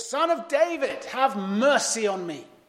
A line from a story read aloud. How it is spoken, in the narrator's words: shouted all the more